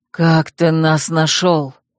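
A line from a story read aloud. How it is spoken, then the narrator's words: Guard's hoarse rasp. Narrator (Russian): прохрипел страж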